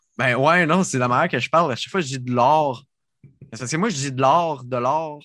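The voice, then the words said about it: Sorel regional Quebec French accent. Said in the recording (French): “mon accent de Sorel”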